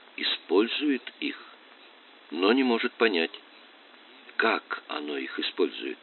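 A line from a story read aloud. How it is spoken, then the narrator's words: Quiet questioning, male. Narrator (Russian): он тихо переспросил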